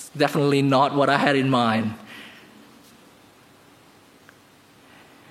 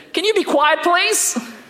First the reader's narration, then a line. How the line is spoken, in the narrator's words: yelled from up top and said